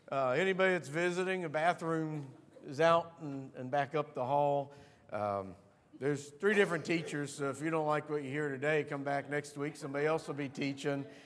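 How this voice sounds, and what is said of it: Raspy, congested, sniffly voice. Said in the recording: “I'm sniffy and snorty ... you're going to put up with the snot bubbles and the sniffs ... I'm a little raspy this morning”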